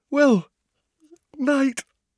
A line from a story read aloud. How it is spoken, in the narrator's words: said Hermione, yawning widely